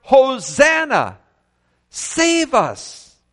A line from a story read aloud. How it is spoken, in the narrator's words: The people cried out